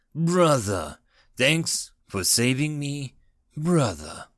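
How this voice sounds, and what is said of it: Serious voice. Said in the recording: “in a serious voice”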